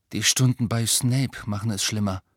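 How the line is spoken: Flat toneless voice. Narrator (German): sagte Harry tonlos

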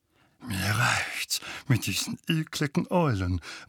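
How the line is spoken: Disturbed mutter. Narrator (German): murmelte Onkel Vernon verstört

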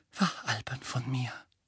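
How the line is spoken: Murmured. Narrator (German): murmelte sie noch einmal

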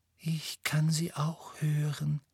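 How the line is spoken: Breathy whisper. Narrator (German): hauchte Luna

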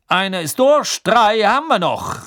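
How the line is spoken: Calling out. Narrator (German): rief Bergman

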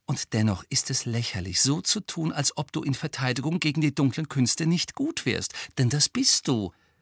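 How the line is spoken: Gentle. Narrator (German): sagte Hermine sanft

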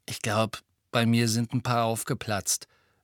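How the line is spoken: Hollow voice. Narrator (German): sagte Fred mit hohler Stimme

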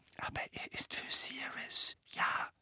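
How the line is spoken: Explaining. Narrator (German): erklärte er

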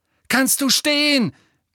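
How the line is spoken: Roar in ear. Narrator (German): brüllte er in Nevilles Ohr

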